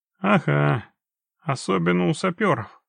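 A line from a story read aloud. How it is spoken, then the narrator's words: Snorting. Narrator (Russian): хмыкнул Геральт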